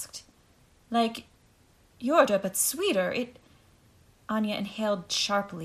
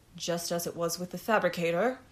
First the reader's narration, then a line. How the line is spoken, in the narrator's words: murmured the merchant